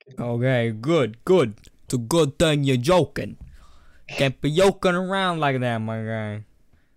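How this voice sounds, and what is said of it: Put-on Brooklyn New York accent. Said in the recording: “I just went, like, into a Brooklyn accent. From New York.”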